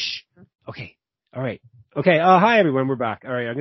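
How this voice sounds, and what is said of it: Usual voice. Nothing is said of it.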